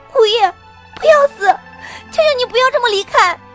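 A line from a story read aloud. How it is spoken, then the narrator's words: Hoarse, sobbing cry. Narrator (Chinese): 我……声音嘶哑的哭喊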